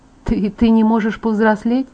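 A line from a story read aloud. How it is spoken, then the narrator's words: Hesitant mumble. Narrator (Russian): нерешительно пробормотала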